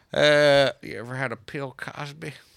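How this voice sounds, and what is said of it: Imitates another person's voice. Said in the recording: “That was my Bill Cosby impression.”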